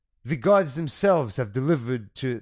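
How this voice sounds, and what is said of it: Attempted Russian accent, sounds German. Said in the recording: “my best Russian accent ... That sounds more like German”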